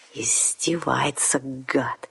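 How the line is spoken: Hissed with hatred. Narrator (Russian): с ненавистью прошипел вампир

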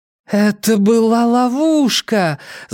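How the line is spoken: Moaning. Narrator (Russian): застонала Нина

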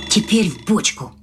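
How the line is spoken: Whisper. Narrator (Russian): шепнул крендель

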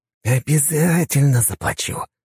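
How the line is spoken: Teacher's hiss. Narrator (Russian): прошипел наш преподаватель

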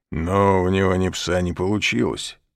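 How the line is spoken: Grumbled. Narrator (Russian): проворчал тот

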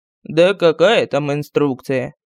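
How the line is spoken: Sighing. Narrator (Russian): Вздохнул медальон

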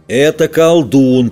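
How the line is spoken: Booming drone. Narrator (Russian): прогудел десятка

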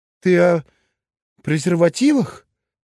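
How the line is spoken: Embarrassed, barely squeezed out. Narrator (Russian): Девушка неожиданно густо покраснела, после чего едва выдавила

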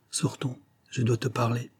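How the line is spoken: Strange murmur, woman. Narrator (French): Elle murmure, d'un ton étrange

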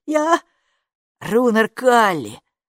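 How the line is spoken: Breathless exhale. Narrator (Russian): выдохнул Капо

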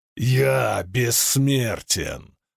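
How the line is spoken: Growled. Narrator (Russian): прорычал преследователь

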